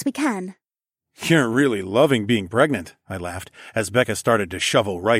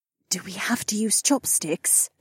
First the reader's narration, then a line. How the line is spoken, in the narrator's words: Kate hissed